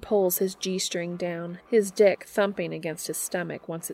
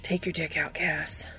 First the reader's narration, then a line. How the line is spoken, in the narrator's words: he says huskily